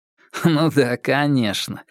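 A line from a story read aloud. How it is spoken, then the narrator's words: Giggling. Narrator (Russian): хихикнул Наиль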